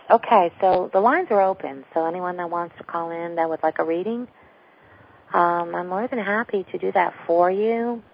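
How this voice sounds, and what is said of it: Sick, low-energy voice. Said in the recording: “giving my voice a little bit of a rest there ... flu or no flu, and I'm still recovering, so I apologize for my energy level and also my voice”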